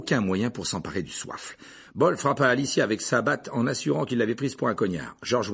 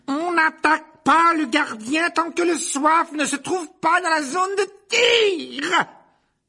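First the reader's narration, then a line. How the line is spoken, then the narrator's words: Yelling woman. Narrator (French): hurla-t-elle à l'adresse de Bol et Derrick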